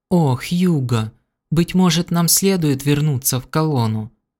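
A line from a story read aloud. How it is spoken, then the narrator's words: Timid babble. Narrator (Russian): робко пролепетала пышная дама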